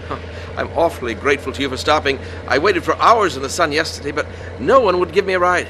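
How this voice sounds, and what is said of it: English accent. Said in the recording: “Oh, England, originally. ... I knew that wasn't no Texas accent”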